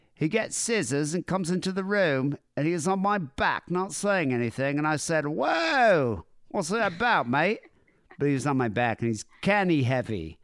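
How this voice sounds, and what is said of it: Weak attempt at Geordie accent. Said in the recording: “That's the only English accent I can do ... You need to work on your fucking Geordie accent.”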